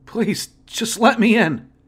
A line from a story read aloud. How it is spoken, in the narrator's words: he whimpered softly